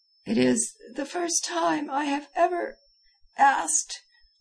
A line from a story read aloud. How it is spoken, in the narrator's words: I faltered